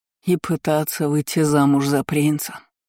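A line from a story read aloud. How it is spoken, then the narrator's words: Knowing snort, father. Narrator (Russian): понятливо хмыкнул отец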